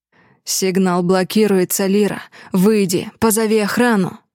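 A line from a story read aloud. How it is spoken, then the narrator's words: Growled. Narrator (Russian): Рыкнул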